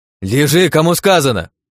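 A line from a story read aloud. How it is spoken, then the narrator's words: Barking. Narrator (Russian): рявкнула Нелли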